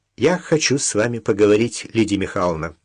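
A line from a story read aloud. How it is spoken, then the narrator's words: Loud. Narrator (Russian): громко сказала Даша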